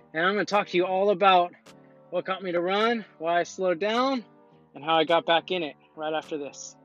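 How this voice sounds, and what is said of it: Out of breath speaking. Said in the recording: “I'm a little out of breath because I just finished running 6 miles right now.”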